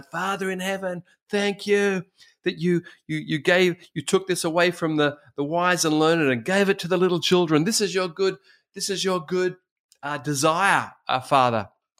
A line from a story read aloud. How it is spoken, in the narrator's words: Jesus rejoices and cries out